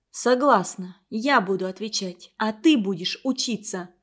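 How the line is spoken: Whisper. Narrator (Russian): Женя шепнула Кате

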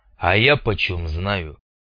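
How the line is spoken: Deep bass voice, bearded man. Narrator (Russian): забасил бородатый

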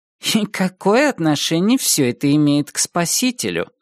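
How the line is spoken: Plain. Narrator (Russian): спросила ее соседка

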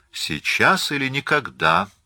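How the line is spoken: Cheerful. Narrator (Russian): весело сказал господин Дени

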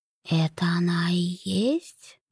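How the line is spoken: Quiet muffled whisper. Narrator (Russian): прозвучал тихий приглушенный шепот

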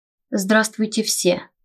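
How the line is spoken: Muffled greeting. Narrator (Russian): глухо поприветствовал он нас

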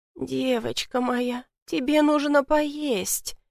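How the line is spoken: Soft lady's remark. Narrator (Russian): мягко заметила леди

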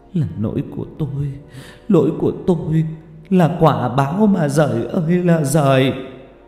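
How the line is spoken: Sobbing. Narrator (Vietnamese): cô ôm mặt nức nở

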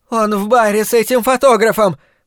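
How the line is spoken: Shrill cry. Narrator (Russian): пронзительно выкрикнула она

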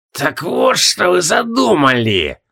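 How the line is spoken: Spiteful creaking voice. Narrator (Russian): Злобно проскрипела Руаха

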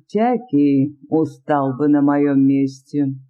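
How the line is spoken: Gloomy tone. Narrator (Russian): ответил временщик мрачным тоном

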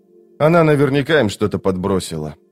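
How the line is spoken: Weary repetition. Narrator (Russian): устало повторил

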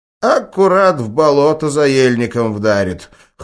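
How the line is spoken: Wry snort. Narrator (Russian): хмыкнул Петрович

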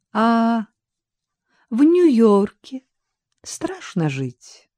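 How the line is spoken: Sudden polite social tone. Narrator (Russian): вдруг тем же светским тоном спросила Катя

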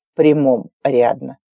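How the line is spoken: Cold answer. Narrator (Russian): ответил холодно

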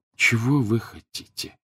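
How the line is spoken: Dejected question. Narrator (Russian): уныло спросил Гарри

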